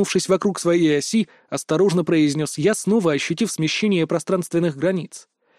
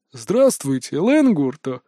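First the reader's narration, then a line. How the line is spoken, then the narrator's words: Laughing familiar voice. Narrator (Russian): Рассмеялся у меня за спиной знакомый голос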